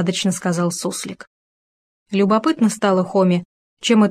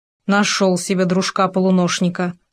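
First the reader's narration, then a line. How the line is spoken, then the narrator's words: Grumbling. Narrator (Russian): проворчал Хома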